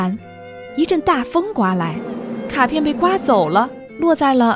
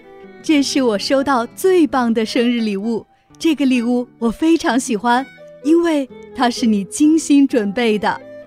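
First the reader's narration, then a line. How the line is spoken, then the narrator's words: Happy laughing. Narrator (Chinese): 开心地笑了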